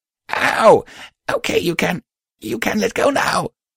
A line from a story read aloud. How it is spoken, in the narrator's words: Patch said, wheezing